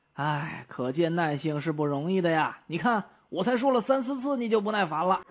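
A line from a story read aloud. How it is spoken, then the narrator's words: Sighing. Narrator (Chinese): 朋友叹了口气说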